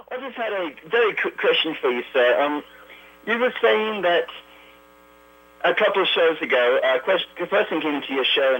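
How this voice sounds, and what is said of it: Australian accent, unwell voice. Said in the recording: “I come from down under. Sorry, my accent is a little bit broken here... I've been ill.”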